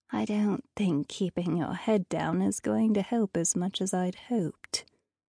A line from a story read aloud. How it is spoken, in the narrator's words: muttered